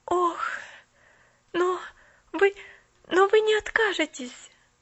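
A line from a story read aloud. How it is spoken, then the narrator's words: Panicked pleading. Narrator (Russian): взмолилась Поллианна в мгновенной панике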